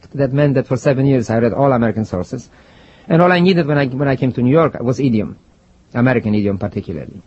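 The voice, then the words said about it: Strong foreign accent. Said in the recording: “my foreign accent then is just as strong as it is now ... It's tough to eradicate it.”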